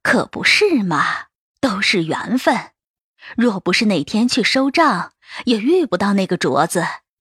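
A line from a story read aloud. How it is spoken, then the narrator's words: Laughing. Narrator (Chinese): 董夫人笑道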